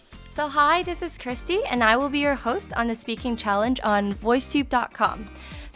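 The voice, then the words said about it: American accent. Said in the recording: “she's really good with accents and her American, beautiful American accent.”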